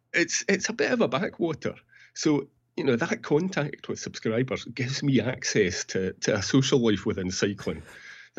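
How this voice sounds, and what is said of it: Scottish accent. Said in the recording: “I'm in Peebles in Scotland. I don't know if you can tell by the accent.”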